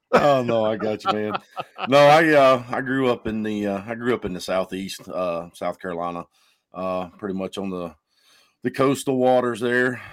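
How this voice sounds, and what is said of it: Southern US accent. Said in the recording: “you can probably tell from my accent, I am not from originally from North Dakota ... I suppose drive a truck with that accent”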